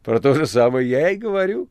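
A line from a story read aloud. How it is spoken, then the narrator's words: Laughing reply. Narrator (Russian): засмеявшись, ответил мастер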